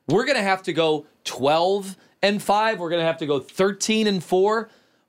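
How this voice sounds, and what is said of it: Yelling. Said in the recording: “Why am I yelling?”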